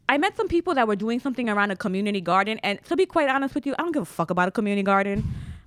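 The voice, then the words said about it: Bronx New York accent. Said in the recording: “From your accent, I was going to guess you were from Connecticut, but Bronx makes sense.”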